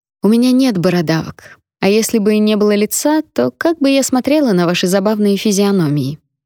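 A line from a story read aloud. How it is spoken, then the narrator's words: Calm, in Cantonese. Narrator (Russian): Спокойно говорю я по-кантонски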